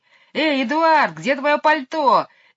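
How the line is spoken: Shout mimicking shrill voice. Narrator (Russian): крикнул Майкл, стараясь передразнить высокий визгливый голос мисс Ларк

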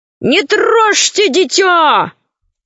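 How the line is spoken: Shouted from a distance. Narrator (Russian): Ложкин закричал из леса

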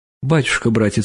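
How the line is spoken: Old woman's tearful voice. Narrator (Russian): сказала старушка слезливым голосом

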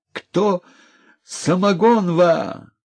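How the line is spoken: Old man's loud command. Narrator (Russian): старичок неожиданно громко на весь двор скомандовал

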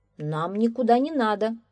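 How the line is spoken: Calm. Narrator (Russian): спокойно отвечал милиционер

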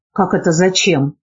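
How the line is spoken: Surprised angry question. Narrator (Russian): удивленно и сердито спросил Быков

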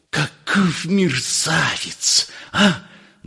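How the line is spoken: Hissing, trembling with indignation. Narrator (Russian): дрожа от негодования, зашипел Персиков

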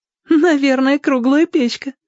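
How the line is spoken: Giggling. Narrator (Russian): хихикнул Зорко

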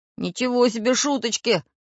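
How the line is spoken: Grumbling, two voices. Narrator (Russian): пробурчали Карандаш и Самоделкин

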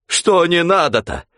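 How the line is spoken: Angry exclamation, then mooing. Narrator (Russian): Сердито воскликнул Захарыч и замычал

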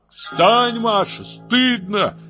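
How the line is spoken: Furious shout. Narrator (Russian): закричал я в бешенстве

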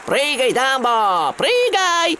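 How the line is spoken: Clowns shouting. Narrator (Russian): кричали клоуны

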